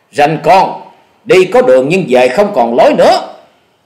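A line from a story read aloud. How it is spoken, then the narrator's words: Fierce loud shout. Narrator (Vietnamese): Hổ Điểu Thần Thủ lão tứ ở trong bọn tính tình nóng nảy hùng hổ hét to nói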